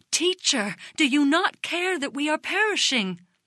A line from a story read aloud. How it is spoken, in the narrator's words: In amazement they exclaimed